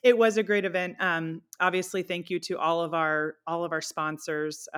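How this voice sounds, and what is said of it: Sick, under-the-weather voice. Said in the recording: “If people can't tell by my voice, I am a little under the weather today”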